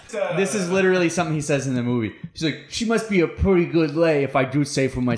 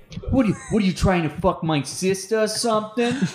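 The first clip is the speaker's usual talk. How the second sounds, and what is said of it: Imitated Brooklyn accent. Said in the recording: “he has a Brooklyn accent? For no reason.”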